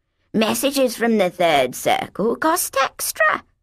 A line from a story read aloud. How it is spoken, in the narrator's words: wheezed